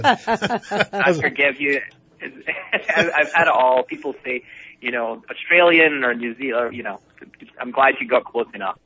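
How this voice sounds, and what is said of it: Scottish accent. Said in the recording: “Do I detect an Irish accent? ... How dare you? I'm Scottish. ... I got a little Celtic there”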